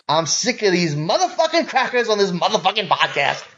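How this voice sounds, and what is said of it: Imitates another person's voice. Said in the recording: “hilariously offensive impersonation of Samuel L. Jackson ... you did a hilariously offensive impersonation”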